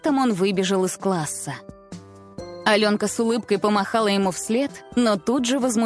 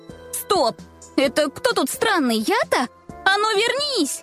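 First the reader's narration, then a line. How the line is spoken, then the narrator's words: Shout. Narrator (Russian): Закричала она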